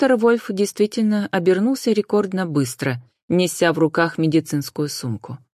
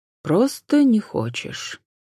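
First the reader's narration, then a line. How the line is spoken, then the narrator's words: Calm agreement. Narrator (Russian): спокойно согласился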